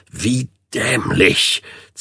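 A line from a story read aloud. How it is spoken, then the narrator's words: Angry hiss. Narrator (German): zischte er ihnen seine Wut entgegen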